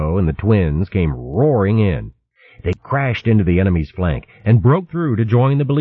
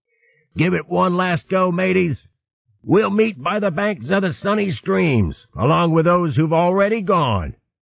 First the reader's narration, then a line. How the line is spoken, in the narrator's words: Over the clash of battle, the skipper of sea otters called out